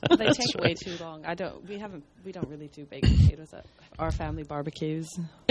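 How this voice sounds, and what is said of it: English accent. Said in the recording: “I just heard your English accent there.”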